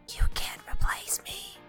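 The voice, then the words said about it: Creepy whisper. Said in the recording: “Stop whispering in my ear, that's creepy.”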